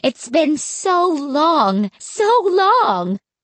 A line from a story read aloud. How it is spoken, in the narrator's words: Grandma Miriam cried happily